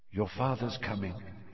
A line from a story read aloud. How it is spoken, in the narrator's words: she said quietly